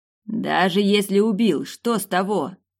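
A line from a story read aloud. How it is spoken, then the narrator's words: Barking snap. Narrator (Russian): рявкнул перс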